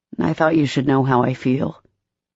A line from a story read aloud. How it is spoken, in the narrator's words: Trey said quietly, his heart twisting unpleasantly within his chest